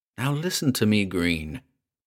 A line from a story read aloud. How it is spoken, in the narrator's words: said, as calmly as he could, for the breathing was still plainly audible